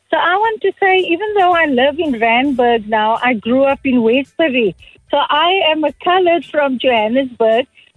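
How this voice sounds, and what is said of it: Cape Town coloured South African accent. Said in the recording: “my accent is so much like the Cape Townian colored”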